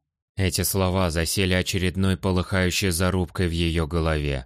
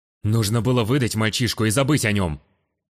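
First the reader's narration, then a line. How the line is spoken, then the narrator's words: Angry snapped remark. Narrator (Russian): Сердито бросил телохранитель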